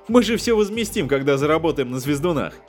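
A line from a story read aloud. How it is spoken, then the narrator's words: Laughing. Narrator (Russian): Засмеялся Джон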